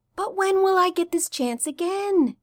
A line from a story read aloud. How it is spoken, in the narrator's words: Stiles whined